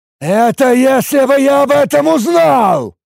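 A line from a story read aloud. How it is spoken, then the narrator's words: Yelling. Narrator (Russian): заорал на него толстяк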